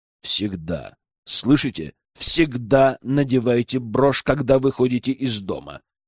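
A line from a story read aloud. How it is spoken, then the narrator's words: Clipped, emphatic. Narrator (Russian): отчеканил я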